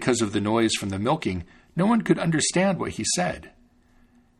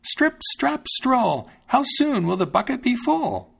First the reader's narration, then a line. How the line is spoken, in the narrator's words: he cried out